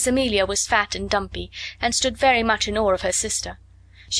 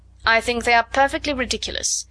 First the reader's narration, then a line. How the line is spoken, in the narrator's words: replied Miss Minchin sharply